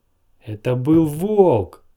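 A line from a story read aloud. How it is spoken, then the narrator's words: Shout. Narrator (Russian): крикнула она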